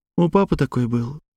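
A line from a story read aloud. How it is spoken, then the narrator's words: Said quietly. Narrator (Russian): тихо проговорила Панова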